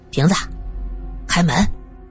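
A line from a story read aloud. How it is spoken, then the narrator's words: Low voice. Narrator (Chinese): 低声说道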